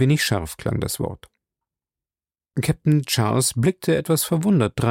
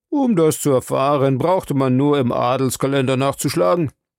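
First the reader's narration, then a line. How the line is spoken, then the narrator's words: Mocking doctor. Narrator (German): spöttelte der Arzt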